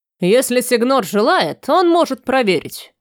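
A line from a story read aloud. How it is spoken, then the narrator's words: Gruff snapping retort. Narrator (Russian): огрызнулся грубый, в котором Рафаэль узнал капитана Клемона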